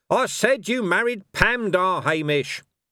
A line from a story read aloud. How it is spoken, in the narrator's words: Cohen shouted